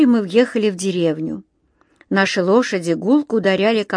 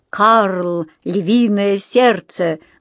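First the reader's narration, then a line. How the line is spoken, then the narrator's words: Loud. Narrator (Russian): громко сказал я, чтобы послушать, как это звучит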